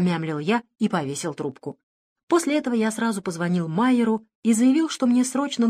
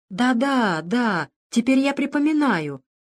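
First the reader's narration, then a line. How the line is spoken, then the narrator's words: Uncertain. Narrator (Russian): неуверенно начал он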